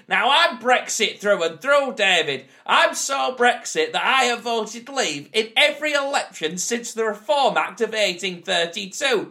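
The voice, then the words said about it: Shouting in a put-on regional accent. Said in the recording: “here to shout in a regional accent which is class coded”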